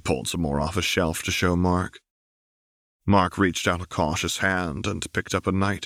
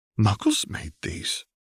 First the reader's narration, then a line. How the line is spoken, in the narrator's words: Mark asked quietly